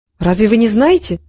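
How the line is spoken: Plain. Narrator (Russian): спросила Генриетта

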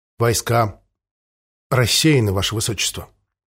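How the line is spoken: Strained, forced out. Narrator (Russian): выдавил из себя Синклер

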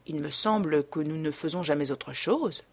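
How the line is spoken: Murmured. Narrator (French): murmura Dorian

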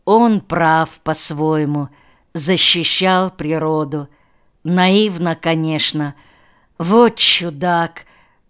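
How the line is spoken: Sorrowful sigh. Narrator (Russian): горестно вздохнул

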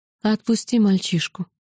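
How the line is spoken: Quiet woman's voice. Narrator (Russian): негромко сказала из-за его плеча желтоглазая

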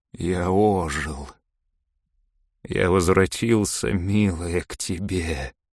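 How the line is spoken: Weak voice. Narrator (Russian): слабым голосом промолвил он

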